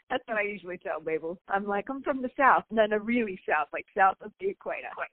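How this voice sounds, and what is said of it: Speaks with a distinct accent. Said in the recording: “you have a lovely accent. Is that Michigan or Wisconsin?”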